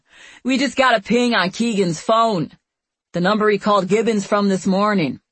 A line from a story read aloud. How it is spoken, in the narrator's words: The other agent, named Baleo, yells across the room